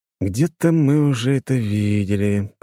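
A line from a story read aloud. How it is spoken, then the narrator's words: Drawled. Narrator (Russian): протянул я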